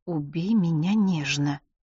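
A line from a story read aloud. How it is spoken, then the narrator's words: Quiet secretive mumble. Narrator (Russian): тихо бормочет Джулия пакетику с M&M's, чтобы Джоанна не расслышала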